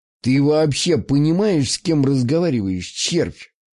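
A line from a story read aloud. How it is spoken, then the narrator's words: Cynical laugh. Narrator (Russian): Он цинично рассмеялся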